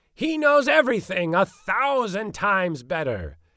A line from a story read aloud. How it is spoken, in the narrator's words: he cried